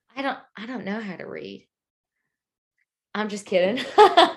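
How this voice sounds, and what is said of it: Southern accent slipping out. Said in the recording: “Your Southern accent just came out. You said, I'm just kidding.”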